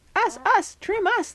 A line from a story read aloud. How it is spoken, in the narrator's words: said, real squealy